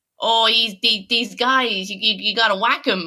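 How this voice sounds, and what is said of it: Put-on New York accent. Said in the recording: “That is my favorite New York accent I've heard in years.”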